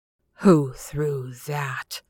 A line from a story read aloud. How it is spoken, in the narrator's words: he demanded in a choking voice